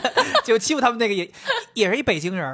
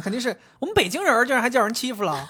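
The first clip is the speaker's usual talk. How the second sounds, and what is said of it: Imitated Beijing accent. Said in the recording (Chinese): “他。们口音肯定不是这样的”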